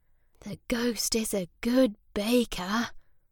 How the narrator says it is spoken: Sam whispered to Sarah

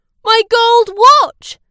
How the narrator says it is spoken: shouted

